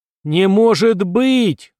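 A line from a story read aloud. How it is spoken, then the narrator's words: Yelled. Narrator (Russian): заорал Будбой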